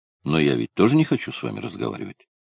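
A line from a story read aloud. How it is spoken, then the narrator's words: Plain. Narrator (Russian): сказал Карелла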